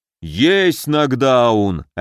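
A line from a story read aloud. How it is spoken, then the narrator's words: Barking bear. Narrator (Russian): рявкнул медведь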